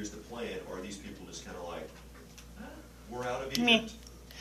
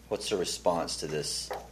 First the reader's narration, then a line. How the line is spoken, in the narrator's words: They grumble